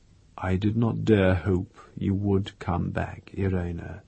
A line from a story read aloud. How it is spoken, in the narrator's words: he said softly